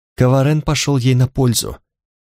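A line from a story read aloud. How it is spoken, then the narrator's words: Mumbling. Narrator (Russian): пробормотала Танталь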